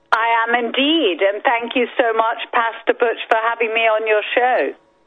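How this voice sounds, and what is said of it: British English accent. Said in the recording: “Boy, I love your accent. I'm sorry. I just love your accent. I do. ... I always liked the English accent ... I've somehow managed to keep my British accent.”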